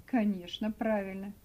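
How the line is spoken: Conciliatory. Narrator (Russian): примирительным тоном сказал его компаньон

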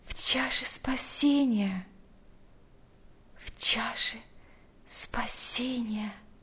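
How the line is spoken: Whispered. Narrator (Russian): прошептала Марфа

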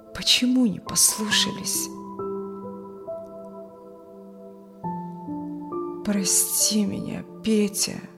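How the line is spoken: Dull muffled voice. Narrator (Russian): глухо сказал Юрген

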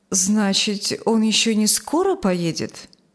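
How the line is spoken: Plain. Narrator (Russian): спросила Юлия

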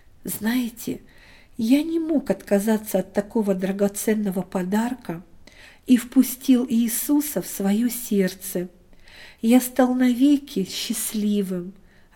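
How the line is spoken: Joyful preacher speaking. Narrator (Russian): радостно сказал проповедник

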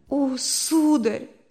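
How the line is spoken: Sobbing. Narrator (Russian): отвечала она, рыдая

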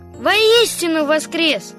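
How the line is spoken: Loud reply. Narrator (Russian): громко ответил Костя

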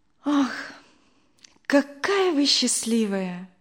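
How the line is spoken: Sighing. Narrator (Russian): вздохнула Надя

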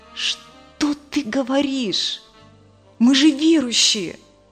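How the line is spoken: Indignant loud whisper, man. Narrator (Russian): Громким шепотом возмутился муж

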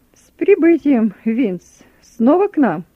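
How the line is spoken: Cheerful greeting. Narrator (Russian): Бодрым голосом приветствует меня подполковник

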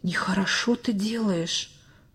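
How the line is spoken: Whisper in ear. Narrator (Russian): словно шепнул кто-то ему на ухо

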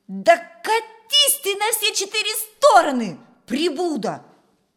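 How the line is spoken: Spiteful shout. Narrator (Russian): Полный злобы выкрикнул он

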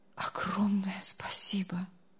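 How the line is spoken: Barely audible. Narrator (Russian): едва слышно проговорил он

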